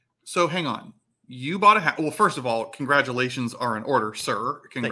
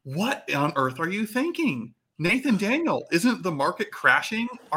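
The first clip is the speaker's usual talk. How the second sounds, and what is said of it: Sarcastic questioning tone. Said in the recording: “I'm kind of being sarcastic here.”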